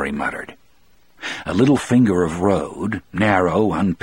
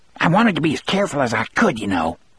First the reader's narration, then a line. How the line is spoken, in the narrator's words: Harry said to Brutal in a thin, scolding voice